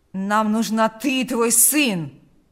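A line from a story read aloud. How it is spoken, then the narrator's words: Growling. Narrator (Russian): прорычал Карп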